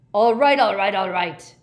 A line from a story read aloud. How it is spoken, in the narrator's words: bellowed Gaunt